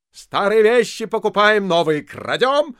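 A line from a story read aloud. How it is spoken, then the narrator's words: Shouting after someone. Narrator (Russian): крикнул Остап вслед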